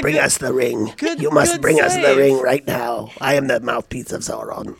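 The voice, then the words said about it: Imitates the Mouth of Sauron. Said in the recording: “That was a good impression. Both of you did good impressions.”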